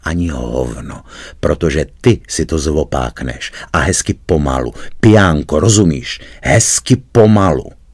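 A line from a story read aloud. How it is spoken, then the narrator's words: Quiet words into ear. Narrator (Czech): prones tiše do ucha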